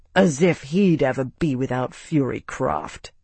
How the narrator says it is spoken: Tavi snorted

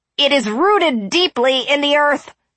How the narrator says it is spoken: he cried

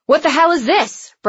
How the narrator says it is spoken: Breck shouted

